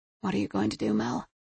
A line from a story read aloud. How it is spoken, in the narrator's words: She murmured it to herself in the empty house